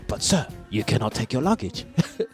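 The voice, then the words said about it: Poor put-on French accent. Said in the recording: “I'm very bad at doing a French accent ... That's my French accent.”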